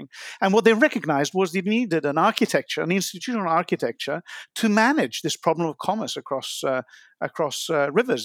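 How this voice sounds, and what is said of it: Non-American accent. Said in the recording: “you're American, and I obviously am not, as you can tell from my accent”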